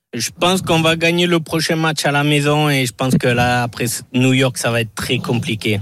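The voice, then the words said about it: Southwestern French accent. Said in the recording (French): “Cet accent du sud-ouest”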